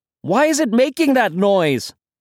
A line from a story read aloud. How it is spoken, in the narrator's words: Brian shouted